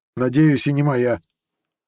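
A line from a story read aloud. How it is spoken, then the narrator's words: Snorting. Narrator (Russian): хмыкнул Коган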